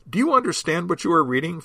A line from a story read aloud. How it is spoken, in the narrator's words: Philip asked